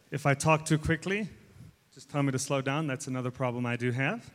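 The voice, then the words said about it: Mixed American and South African accent. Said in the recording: “American/South African accent because I've been back and forth a little bit”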